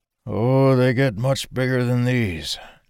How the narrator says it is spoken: Dalen croaked back

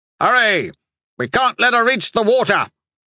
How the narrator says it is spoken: Hatch bellowed

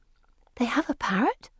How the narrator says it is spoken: whisper

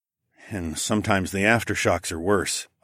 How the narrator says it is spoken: I muttered

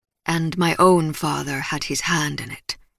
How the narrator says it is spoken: Bacchus replied gruffly

